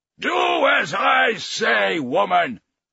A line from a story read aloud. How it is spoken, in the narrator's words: he bellowed